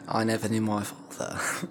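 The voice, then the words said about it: Movie line in a different accent. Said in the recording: “It's from Finding Nemo, but different accent.”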